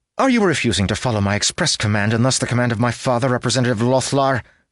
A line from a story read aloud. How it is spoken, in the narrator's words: snapped Caroline